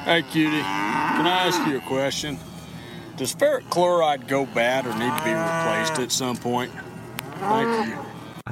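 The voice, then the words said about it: Southern US accent. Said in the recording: “his southern accent”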